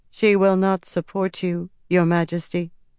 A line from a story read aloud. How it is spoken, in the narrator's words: Sylvaise said, her voice still too calm